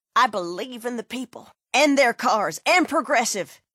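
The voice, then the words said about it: Mock politician speaking voice. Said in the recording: “my impression of a politician”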